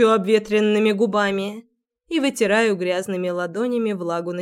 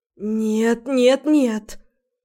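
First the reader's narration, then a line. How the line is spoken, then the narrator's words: Hoarse. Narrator (Russian): Хриплю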